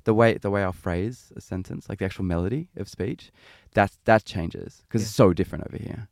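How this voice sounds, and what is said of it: Mild Australian accent. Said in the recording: “You can definitely hear it. ... People say I've got a really, really mild accent. ... I can feel myself consciously trying to speak more Australian.”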